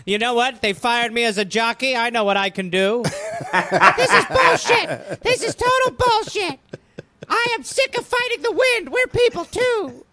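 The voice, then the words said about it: Comic jockey character voice. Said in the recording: “That's a beautiful jockey impersonation.”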